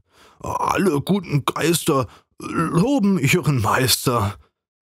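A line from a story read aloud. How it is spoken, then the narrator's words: Fervent stammering. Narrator (German): Mit Inbrunst stammelte er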